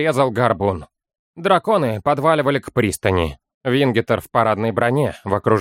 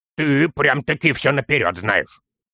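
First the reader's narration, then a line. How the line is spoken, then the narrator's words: Small gnome's snort. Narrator (Russian): хмыкнул маленький гном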